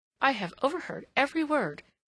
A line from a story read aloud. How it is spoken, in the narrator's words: she exclaimed